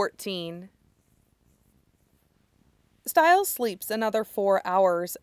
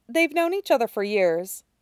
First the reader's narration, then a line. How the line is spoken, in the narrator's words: Jennifer says